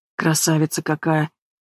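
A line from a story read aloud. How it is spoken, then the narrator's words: Shaky mutter. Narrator (Russian): бормочет Вахидов, а руки немного трясутся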